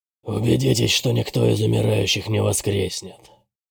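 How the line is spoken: Hoarse voice. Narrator (Russian): Голос Бэтрима звучал хрипло

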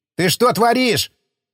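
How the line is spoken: Bewildered shout. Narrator (Russian): закричал так ничего и не понимающий Борщев

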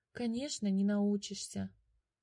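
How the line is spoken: Sighing. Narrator (Russian): вздохнул Котя

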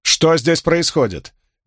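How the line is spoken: Loud question. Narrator (Russian): громко спросила Леандрин

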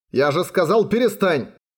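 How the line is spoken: Shouting. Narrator (Russian): крикнул Тору белой чайки

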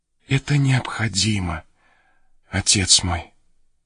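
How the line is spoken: Hesitant, barely audible whisper. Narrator (Russian): Она колебалась с минуту, трепет пробежал по ее телу, и едва слышным голосом она прошептала

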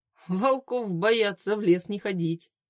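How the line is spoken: Laughing. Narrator (Russian): засмеялся Глеб

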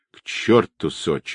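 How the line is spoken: Gruff mutter. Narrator (Russian): буркнул Тихий

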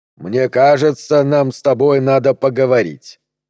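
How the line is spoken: Plain. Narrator (Russian): ответил он

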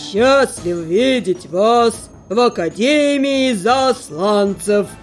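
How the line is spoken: Menacing, loud proclamation. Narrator (Russian): Грозным голосом на весь зал возвестил ректор сего достойного учреждения

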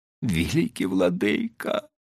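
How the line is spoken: Pleading. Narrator (Russian): взмолился чихан

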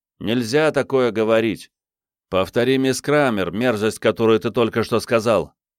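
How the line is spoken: Loud. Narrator (Russian): сосед Томаса громко сказал

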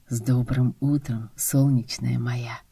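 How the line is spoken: Whispered with a chuckle. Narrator (Russian): прошептал Костя со смешком

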